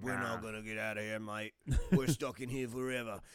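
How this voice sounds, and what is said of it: Put-on Australian accent. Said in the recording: “That's my British, or my Australian accent ... That's a good Australian accent ... He is kind of Statham-like.”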